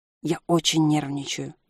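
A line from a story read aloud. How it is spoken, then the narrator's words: Nervous whispered confession. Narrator (Russian): шепотом признался Селис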